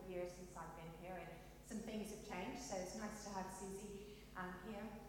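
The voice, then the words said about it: Mixed Kentucky and English accent. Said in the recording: “I'm originally from Kentucky, but I've been in England now for 19 years. So I have a bit of a mix of an accent”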